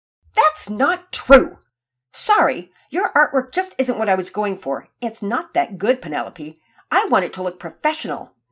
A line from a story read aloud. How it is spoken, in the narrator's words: Nora snapped back